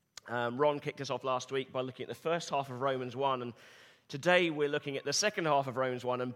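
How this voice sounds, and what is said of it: Slightly hoarse voice. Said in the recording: “Apologies for the slight hoarseness of my voice. I got a little overexcited yesterday while watching a football match”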